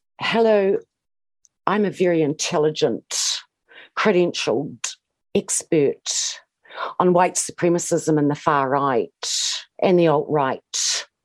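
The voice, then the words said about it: Imitates another person's affected speech. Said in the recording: “do a Kate Hannah impression? ... the way she speaks just irritates me so much ... She affects this gay man's speech.”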